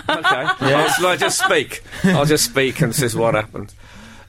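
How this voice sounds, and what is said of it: Strong Birmingham (Brummie) accent. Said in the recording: “Your accent's gone much more Brummy ... your accent's gone Brummy ... It's gone off the scale.”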